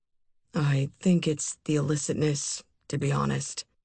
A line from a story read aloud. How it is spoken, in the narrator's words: he murmured, almost to himself